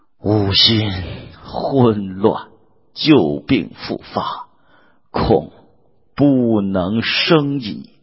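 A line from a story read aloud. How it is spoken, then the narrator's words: Sighing. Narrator (Chinese): 孔明叹曰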